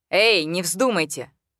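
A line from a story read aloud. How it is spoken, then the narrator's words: Rather sharp tone. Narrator (Russian): сказал он довольно резким тоном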